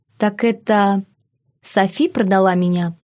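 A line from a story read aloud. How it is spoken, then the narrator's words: Calm, casual inquiry. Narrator (Russian): Спокойно поинтересовалась, словно речь шла о торговле сезонными овощами на местном рынке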